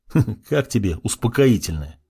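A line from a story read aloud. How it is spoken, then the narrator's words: Chuckle. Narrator (Russian): хохотнул я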